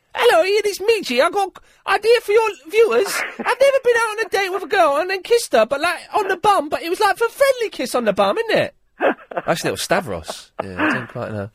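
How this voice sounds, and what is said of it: Imitates another person's voice. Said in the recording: “Not as good as my impression.”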